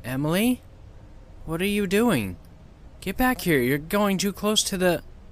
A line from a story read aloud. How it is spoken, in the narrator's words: Sandy said in a concerned voice